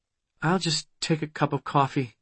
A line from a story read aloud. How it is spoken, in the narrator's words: she muttered